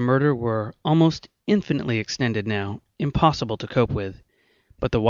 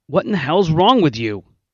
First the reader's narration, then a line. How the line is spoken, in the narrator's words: he asked indignantly